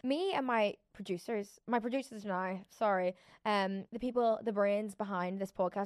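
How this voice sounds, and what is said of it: Fading Belfast accent. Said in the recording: “going back to Belfast ... stronger accent because I think my accent is starting to fade”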